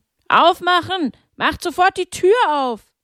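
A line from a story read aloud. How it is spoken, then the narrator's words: Several men bellowing. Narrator (German): als mehrere Männer brüllten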